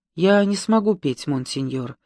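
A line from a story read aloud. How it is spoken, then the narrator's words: Quiet. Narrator (Russian): тихо сказала Сильви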